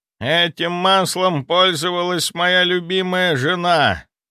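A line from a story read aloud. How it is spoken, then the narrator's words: Heavy sigh. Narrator (Russian): Тяжело вздохнув, ответил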